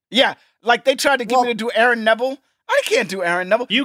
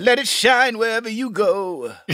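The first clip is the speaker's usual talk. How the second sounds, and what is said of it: Imitates a singer's voice, singing. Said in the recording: “Very good. ... his only impression he does well”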